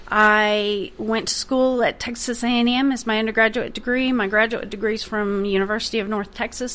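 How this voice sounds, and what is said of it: Oklahoma accent. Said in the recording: “as you can tell by the accent, I am not from around here. I'm originally from Oklahoma.”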